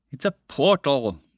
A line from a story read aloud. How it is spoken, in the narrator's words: the dragon said impatiently